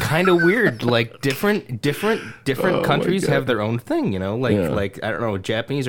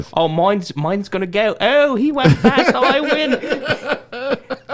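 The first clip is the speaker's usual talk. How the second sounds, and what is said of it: Imitates British women's voices. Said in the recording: “your impression of that was fucking amazing, man.”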